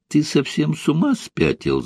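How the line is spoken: Laughing. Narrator (Russian): засмеялась она

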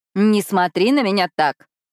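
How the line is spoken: Sarcastic retort. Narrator (Russian): язвительно бросает она

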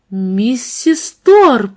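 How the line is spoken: Astonished exclamation. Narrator (Russian): воскликнула Кассандра пораженно

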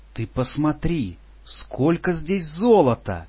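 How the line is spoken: Friendly exclamation. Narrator (Russian): дружелюбно воскликнул я

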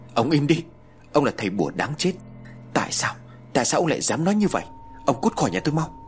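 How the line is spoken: Loud furious shout. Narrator (Vietnamese): Kha ... hét toáng lên

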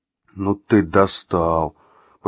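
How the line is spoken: Groan. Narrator (Russian): простонал Артем

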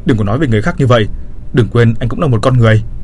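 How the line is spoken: Angry shout. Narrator (Vietnamese): Tôi trừng mắt nhìn anh ta hét lên

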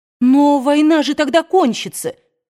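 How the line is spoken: Offended child's shout. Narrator (Russian): обиженно закричал Фил

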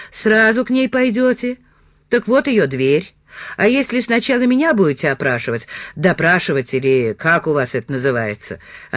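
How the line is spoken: Husky laugh then coughing. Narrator (Russian): Она засмеялась сипловато, а потом закашлялась

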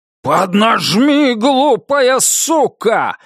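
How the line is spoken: Yelling. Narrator (Russian): заорал Китон

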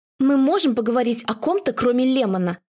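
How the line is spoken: Sharp question. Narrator (Russian): спрашиваю резко

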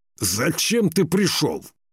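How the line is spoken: Impatient shout. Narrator (Russian): выкрикнул нетерпеливо Скиялк

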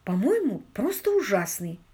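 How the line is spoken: Serious and quiet. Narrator (Russian): отозвалась Мэгги так серьезно и тихо

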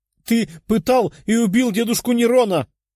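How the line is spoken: Female shout. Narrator (Russian): прокричала она

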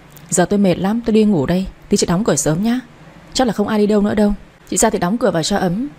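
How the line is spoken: Sighing, tired. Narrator (Vietnamese): Mẹ chồng tôi thở dài nói tiếp

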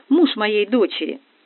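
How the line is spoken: Sighing. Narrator (Russian): вздохнула билетерша

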